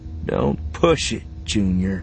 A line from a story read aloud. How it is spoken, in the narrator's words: Beckett said, his voice stony